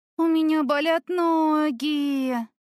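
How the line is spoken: Moaning. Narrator (Russian): Простонала я

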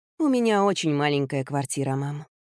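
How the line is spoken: Sighing. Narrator (Russian): вздохнула Вики

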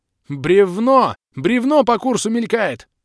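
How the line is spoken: Frantic yell. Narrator (Russian): Истошно заорал я

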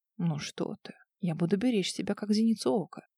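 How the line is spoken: Hoarse, smirking reply. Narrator (Russian): Клим с хриплой усмешкой ответил

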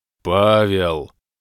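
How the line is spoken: Roaring like a beast. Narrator (Russian): Папа-адмирал прямо-таки как зверь зарычал

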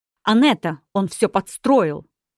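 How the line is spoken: Shouting. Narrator (Russian): Оливер закричал

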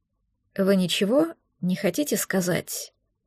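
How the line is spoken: Quiet questioning. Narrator (Russian): уточнил он тихо

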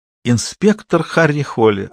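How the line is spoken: Ringing laughing answer. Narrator (Russian): ответила она, звонко рассмеявшись, как будто он рассказал смешной анекдот

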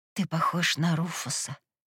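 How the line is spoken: Hoarse. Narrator (Russian): хрипло выдала я

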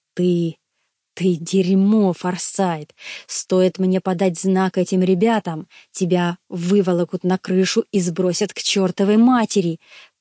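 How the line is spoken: Furious hiss. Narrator (Russian): прошипел, сжимая кулаки

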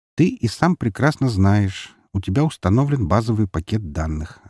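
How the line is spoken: Plain. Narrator (Russian): ответил я

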